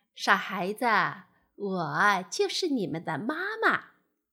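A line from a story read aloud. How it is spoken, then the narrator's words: Laughing. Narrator (Chinese): 青蛙笑了起来，说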